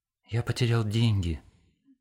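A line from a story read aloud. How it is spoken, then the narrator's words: Very quiet. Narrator (Russian): сказал он тихо-тихо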